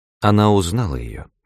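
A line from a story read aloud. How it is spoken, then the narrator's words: Calm. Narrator (Russian): спокойно ответила я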